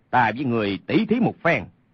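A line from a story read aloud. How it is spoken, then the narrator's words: Shouting. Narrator (Vietnamese): Lê Sinh quát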